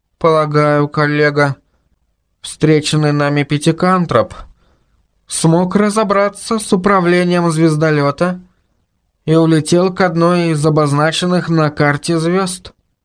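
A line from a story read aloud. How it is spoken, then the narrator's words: Dejected voice. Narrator (Russian): сообщил Мурзик упавшим голосом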